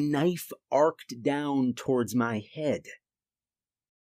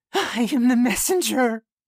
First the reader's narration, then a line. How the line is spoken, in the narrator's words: he shrieked